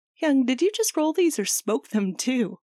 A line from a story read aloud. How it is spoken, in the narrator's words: Jisung asks Chan in between laughs